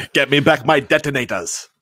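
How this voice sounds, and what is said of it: Put-on German-style accent. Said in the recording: “asking me to do an Austrian accent. ... I know it's that's German, but I mean it's close.”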